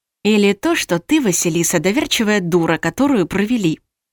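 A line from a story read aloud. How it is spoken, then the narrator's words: Whispering inner voice. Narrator (Russian): шепнул внутренний голос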